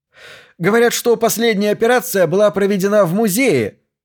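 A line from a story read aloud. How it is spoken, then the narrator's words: Reporter shouting out. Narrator (Russian): выкрикнул другой репортер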